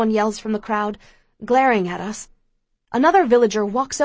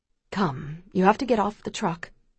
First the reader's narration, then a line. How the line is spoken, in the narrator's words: Pa says gently to me